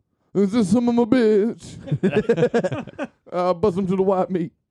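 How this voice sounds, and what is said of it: Imitates another person's voice. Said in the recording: “my limited Bernie Mac impression ... Awful.”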